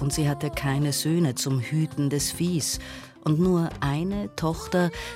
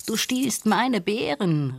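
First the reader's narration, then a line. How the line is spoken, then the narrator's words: Called out. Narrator (German): rief Nandi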